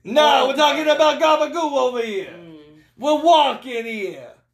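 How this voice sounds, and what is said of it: Put-on Italian New York accent. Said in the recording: “You were talking in an Italian accent ... we're talking with a New York accent”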